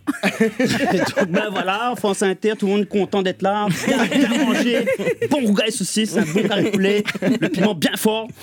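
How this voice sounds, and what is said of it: Réunionese French accent. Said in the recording (French): “Moi quand je passe, c'est-à-dire plus d'un quart d'heure avec des réunionnais, j'arrive, je parle comme ça.”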